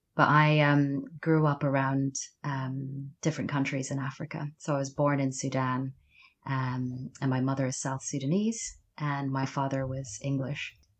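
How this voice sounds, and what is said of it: Mild Mid-Atlantic accent. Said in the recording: “I have a bit of an accent that you can probably detect, which is often called Mid Atlantic.”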